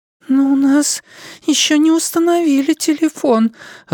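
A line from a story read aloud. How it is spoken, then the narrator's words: Timid objection. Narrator (Russian): робко возразила Дилли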